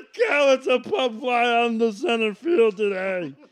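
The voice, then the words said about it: Imitates another person's voice. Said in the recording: “best impression of Harry Carey I've heard since Will Ferrell”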